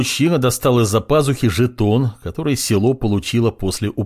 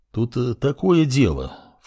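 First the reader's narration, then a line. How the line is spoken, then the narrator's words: Ingratiating tone. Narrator (Russian): вкрадчиво произнес мужик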